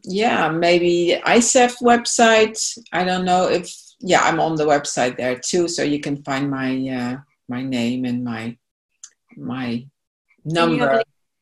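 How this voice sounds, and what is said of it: Beautiful foreign accent. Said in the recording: “you have the beautiful, beautiful accent, but it can be hard to understand how to spell something that's in an accent”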